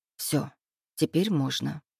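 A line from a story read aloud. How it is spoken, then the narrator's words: Quiet. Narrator (Russian): тихо произнесла я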